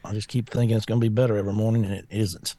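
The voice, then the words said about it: Voice sounds messed up. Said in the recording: “My voice is still messed up.”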